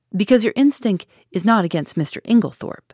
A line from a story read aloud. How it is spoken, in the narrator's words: said Poirot curtly